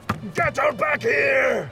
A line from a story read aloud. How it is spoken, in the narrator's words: Ard shouted in fury and agony